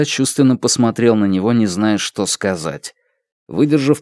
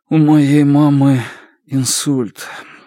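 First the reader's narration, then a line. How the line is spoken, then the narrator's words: Muffled answer. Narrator (Russian): глухо ответил он наконец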